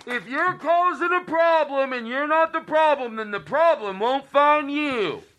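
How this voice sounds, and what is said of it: Dr. Phil impression. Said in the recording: “this Dr. Phil impersonation ... Todd Glass is doing his impersonation of James Adomian's impersonation of Dr. Phil”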